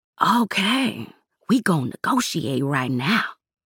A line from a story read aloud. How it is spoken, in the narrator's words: Zara whispered